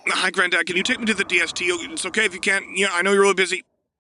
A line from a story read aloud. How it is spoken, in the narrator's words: Anakin blurting out